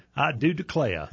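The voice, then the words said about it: Put-on Southern accent. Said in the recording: “get in touch with your inner Southern boy... you'll start speaking with an accent”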